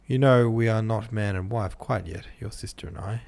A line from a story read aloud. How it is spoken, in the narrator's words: said Newman